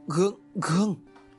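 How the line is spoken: Stammering. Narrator (Vietnamese): Thầy liền lắp bắp

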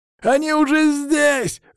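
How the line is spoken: Bandit yelling over radio. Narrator (Russian): завопил по рации тот бандит

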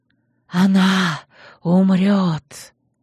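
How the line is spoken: Barely audible hiss. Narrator (Russian): Еле слышные слова с шипением вырвались

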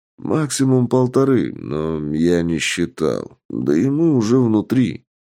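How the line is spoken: Lazy boss. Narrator (Russian): лениво ответил босс

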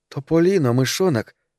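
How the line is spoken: Exclaimed. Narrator (Russian): воскликнула она

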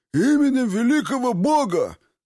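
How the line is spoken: Barked. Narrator (Russian): как полагается, рявкнул десятник

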